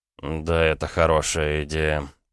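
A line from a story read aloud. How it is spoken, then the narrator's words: Sleepy mutter. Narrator (Russian): пробормотал Рома, не открывая глаз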